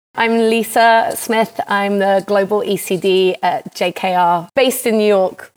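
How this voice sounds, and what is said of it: British accent. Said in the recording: “I have a British accent”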